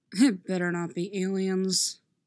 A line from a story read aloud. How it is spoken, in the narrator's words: grumbles